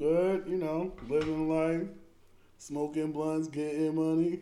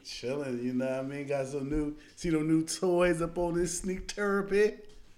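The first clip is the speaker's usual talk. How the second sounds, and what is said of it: Put-on accent. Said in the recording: “I don't know why I said it in an accent.”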